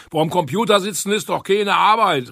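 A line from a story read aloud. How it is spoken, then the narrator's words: Grandfather calling out. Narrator (German): rief mein Opa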